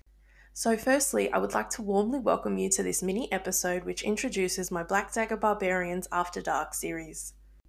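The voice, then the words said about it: Noticeable accent. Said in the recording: “give you all a chance to acclimate to my accent.”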